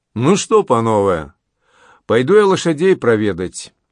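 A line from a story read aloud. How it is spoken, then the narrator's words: Embarrassed, cheerful old soldier. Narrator (Russian): Смутившись, очевидно, этого момента, старый вояка весело сказал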